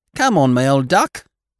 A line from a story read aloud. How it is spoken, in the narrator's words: cried Polly Birkin